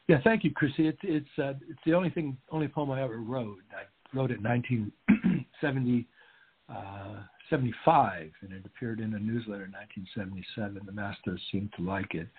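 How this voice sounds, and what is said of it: Slightly raspy voice. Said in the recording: “let me take a sip of water here. I'm getting a bit raspy.”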